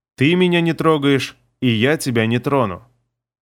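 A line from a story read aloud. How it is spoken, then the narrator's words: Calm, friendly. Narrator (Russian): спокойно и дружелюбно сказал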